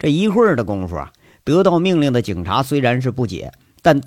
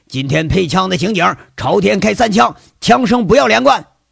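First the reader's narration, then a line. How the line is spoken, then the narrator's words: Pleased shouting. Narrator (Chinese): 吴铁军喜上眉梢，喊着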